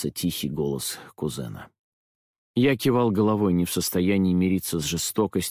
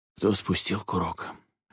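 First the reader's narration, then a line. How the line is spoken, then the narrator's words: Hoarse. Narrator (Russian): хрипло спросил я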